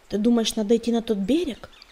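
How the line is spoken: Plain. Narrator (Russian): спросил он

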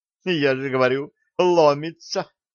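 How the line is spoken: Giggling. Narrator (Russian): хихикнула Нола

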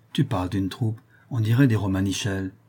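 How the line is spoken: Murmured aside. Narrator (French): murmura Nicée en aparté

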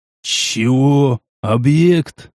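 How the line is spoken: Stunned hoarse rasp. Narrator (Russian): Ошарашенно прохрипел я

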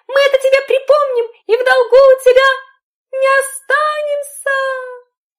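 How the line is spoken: Shouting after. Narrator (Russian): крикнули ему вслед

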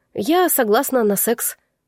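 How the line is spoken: Blunt, feigned ease. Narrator (Russian): прямо сообщила, сделав вид, что мне ничего не стоило выдавить фразу из себя

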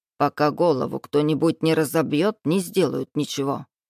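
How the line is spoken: Old woman grumbling. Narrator (Russian): проворчала старушка

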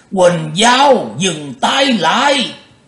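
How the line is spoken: Startled shout, old man. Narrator (Vietnamese): lão quái giật mình hét lên

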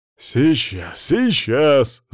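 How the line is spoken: Out of breath, muttering. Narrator (Russian): запыхавшись, пробурчал Вальдемар

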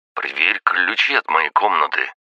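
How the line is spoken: Tense demand. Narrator (Russian): потребовал брат напряженным голосом

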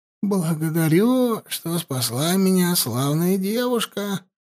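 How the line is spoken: Hoarse. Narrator (Russian): сипло произнес он

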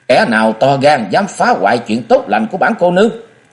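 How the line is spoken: Terrified shout. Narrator (Vietnamese): Hắc Bạch Song Hoa kinh hãi kêu thất thanh, miệng quát

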